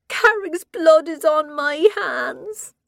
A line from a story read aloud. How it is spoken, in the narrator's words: she wailed